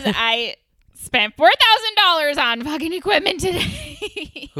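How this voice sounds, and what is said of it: Loud shouting. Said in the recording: “that was like pretty fucking loud ... sorry for shouting”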